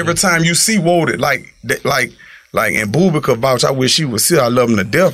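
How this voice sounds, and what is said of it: Heavy accent. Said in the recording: “my accent, my tongue a little heavy”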